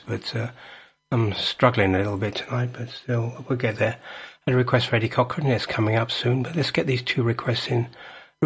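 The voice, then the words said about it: Hoarse, strained voice. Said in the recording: “I'm losing my voice tonight, I don't know why I'm losing my voice”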